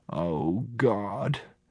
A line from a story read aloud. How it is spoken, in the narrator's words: Grandma murmur